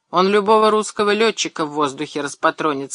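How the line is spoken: Loud. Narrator (Russian): сказал штурман громко

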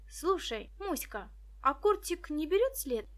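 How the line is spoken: Exclamation. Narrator (Russian): воскликнула Виктоша

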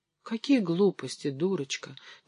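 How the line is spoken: Whispered reply. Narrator (Russian): тоже шепотом ответила княжна

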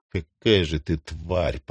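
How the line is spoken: Hateful whisper. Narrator (Russian): прошептал он с такой ненавистью

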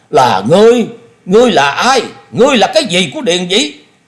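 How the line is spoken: Furious roar. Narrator (Vietnamese): Thôi Công Đức hết nhịn nổi, y gầm lên

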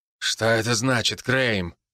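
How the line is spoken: Irritated curt giant. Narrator (Russian): раздраженно бросил черный гигант

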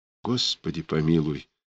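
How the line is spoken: Barely audible whisper. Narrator (Russian): еле слышно прошептала Варечка Черная

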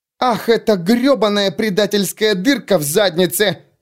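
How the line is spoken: Yelling. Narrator (Russian): завопила Рикки

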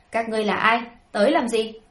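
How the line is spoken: Sudden loud shout. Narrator (Vietnamese): hắn bỗng hét lớn một tiếng

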